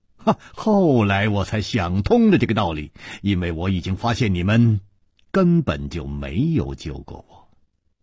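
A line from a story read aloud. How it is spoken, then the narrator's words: Smiling. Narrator (Chinese): 楚留香笑了笑接着说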